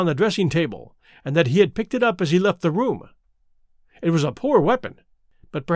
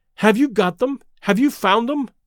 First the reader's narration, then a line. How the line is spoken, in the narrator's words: panted